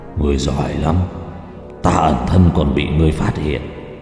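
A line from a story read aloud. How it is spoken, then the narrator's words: Growling voice. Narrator (Vietnamese): gầm gừ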